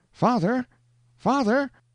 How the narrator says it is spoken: exclaimed a piercing cry

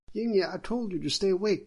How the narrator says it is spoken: the magistrate's wife shouted

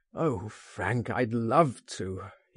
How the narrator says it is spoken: he groaned

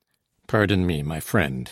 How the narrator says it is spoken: he said

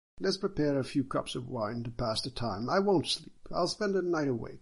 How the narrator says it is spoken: Sun said

